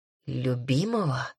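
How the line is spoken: Hoarse, questioning. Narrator (Russian): севшим голосом переспросил зеленоглазый

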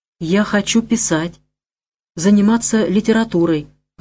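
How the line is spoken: Timid babbling. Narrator (Russian): робко пролепетала я

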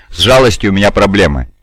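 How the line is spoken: Mocking quote. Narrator (Russian): насмешливо цитирую

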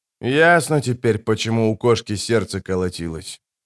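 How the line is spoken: Quiet mutter to himself. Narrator (Russian): тихо пробормотал себе под нос капитан

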